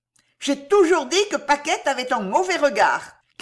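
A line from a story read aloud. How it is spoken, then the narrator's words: Shouted. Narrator (French): criait une autre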